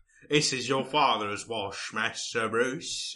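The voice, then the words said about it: Imitated Alfred the butler's accent. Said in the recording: “This is like the fourth accent I've done for him in this episode.”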